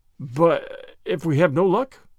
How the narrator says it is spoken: faltered McAvoy

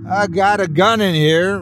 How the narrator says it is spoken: Ryan shouted

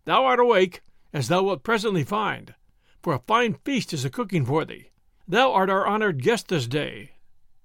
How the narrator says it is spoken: quoth Robin, laughing

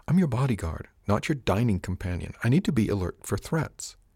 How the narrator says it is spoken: said quietly, and in her I'm being reasonable voice

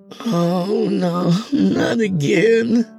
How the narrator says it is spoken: she moaned

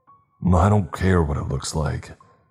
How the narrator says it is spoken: he growled

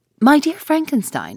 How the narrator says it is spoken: exclaimed he

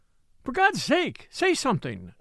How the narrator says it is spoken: she exclaimed passionately

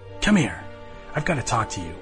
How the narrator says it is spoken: hissed under her breath

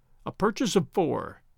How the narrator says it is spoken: he murmured aloud

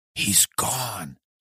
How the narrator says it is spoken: whispered

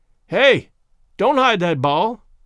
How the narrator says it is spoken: he yelled in his piercing tenor

